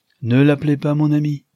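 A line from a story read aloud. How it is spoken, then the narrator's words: Plain. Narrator (French): dit le ministre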